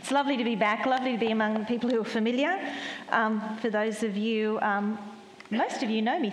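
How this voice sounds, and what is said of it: Australian accent. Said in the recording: “My accent is Australian.”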